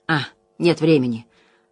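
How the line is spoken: Muttering, arguing with himself. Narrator (Russian): пробормотал он, похоже, споря с собой

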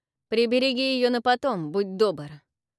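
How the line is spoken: Snort. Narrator (Russian): фыркнул Авис

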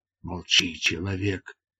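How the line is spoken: Hissing. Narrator (Russian): прошипел Дартарус

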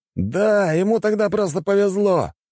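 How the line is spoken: Shouting. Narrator (Russian): крикнул

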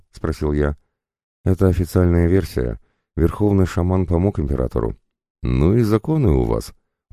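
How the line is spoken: Sighing. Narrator (Russian): вздохнул

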